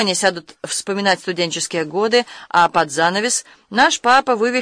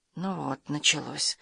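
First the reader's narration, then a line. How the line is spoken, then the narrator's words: Muttered through teeth. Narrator (Russian): сквозь зубы пробормотала Карен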